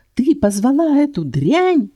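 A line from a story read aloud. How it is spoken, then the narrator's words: Yelling. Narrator (Russian): вопил Маррис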